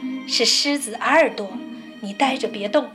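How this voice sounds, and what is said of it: Quiet, hushed speaking voice. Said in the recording (Chinese): “小声地说”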